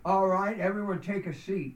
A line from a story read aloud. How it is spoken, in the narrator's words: barked Captain Rodriguez, the battalion chief of House 27